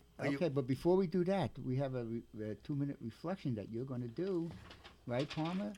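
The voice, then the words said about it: Brooklyn accent. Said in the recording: “I'm from Brooklyn. I have a Brooklyn accent.”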